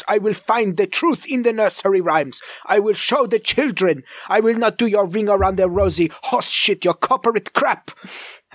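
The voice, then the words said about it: Weird put-on German accent. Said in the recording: “my weird German accent”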